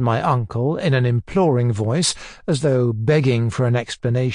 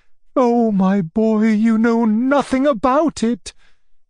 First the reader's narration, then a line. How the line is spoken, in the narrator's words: he cried